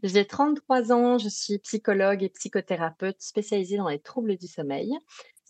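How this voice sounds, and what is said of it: Slight Belgian French accent. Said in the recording (French): “Si vous entendez un petit accent particulier, c'est parce que je suis belge.”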